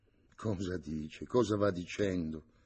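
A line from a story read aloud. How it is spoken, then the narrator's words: Paternal whisper, young priest. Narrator (Italian): sussurrò paternamente il giovane sacerdote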